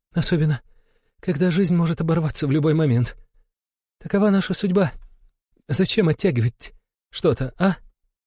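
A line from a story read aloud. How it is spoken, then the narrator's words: Wheezing in pain. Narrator (Russian): захрипела от боли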